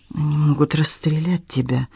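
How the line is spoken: Frightened voice. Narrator (Russian): испуганно произнесла

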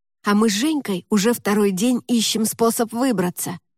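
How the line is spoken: Whisper. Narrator (Russian): прошептал Валера

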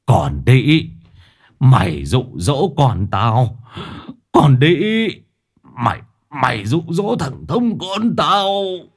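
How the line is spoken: Trembling, howling man. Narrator (Vietnamese): tiếng của thầy Thông run rẩy gào lên

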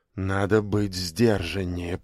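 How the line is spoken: Whisper. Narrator (Russian): прошептал он

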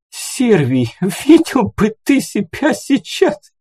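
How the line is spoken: Squealing with laughter. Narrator (Russian): Она буквально пищала от смеха

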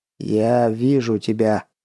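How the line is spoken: Sudden alien otherworldly voice. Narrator (Russian): неожиданно произнес хан, но совершенно чужим и потусторонним голосом

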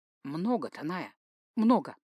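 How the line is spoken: Thoughtful reply. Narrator (Russian): задумчиво ответила

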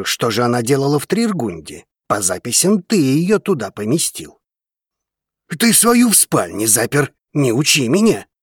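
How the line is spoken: Annoyed dragon's growl. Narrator (Russian): Досадливо рыкнул дракон

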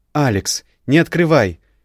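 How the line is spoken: Frightened speech. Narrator (Russian): произнесла испуганно Яра

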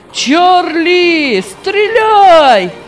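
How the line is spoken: Shouting. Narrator (Russian): кричал он

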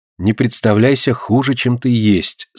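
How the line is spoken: Calm. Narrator (Russian): спокойно сказала Полина

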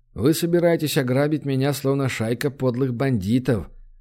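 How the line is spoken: Calm. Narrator (Russian): спокойно произнес он

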